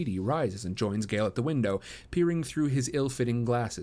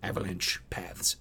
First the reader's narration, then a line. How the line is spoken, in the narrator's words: says Beatty under his breath